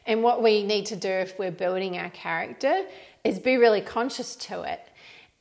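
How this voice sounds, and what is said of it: Mixed New Zealand-Australian accent. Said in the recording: “I've got a funny Kiwi Aussie accent. It's probably more New Zealand accent ... this is a mishmash”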